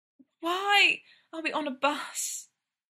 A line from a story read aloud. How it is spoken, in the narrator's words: Brendan panted